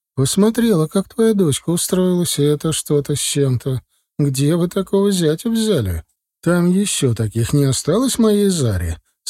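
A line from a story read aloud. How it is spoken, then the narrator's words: Laughing question. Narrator (Russian): смеясь, спросила Диля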